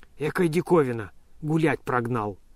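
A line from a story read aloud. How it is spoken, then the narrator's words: Hoarse wry muttering. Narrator (Russian): с усмешкой сипел он про себя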